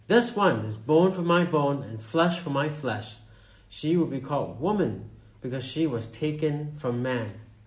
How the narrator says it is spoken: the man exclaimed

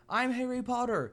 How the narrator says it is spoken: Harry began yelling

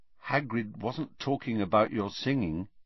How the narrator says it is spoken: said Harry quietly

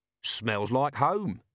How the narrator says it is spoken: said Nobby

